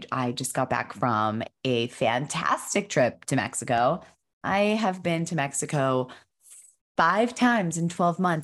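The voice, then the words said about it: Unusually deep, rough voice. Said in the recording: “excuse my voice... I've turned into a baritone... I was fighting off a little cold yesterday”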